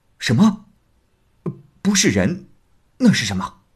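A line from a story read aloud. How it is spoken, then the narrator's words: Astonished, sighing. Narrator (Chinese): 韦银惊讶叹息不已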